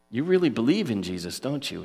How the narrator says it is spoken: he asked me

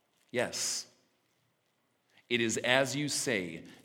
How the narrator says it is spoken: Jesus replied

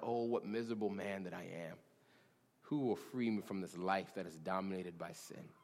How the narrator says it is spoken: a man named Paul, feeling the weight of his own sin, cries out

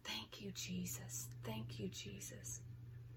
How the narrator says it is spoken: She was mumbling softly

